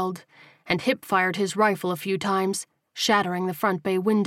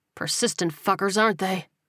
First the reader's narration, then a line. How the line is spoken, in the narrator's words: He muttered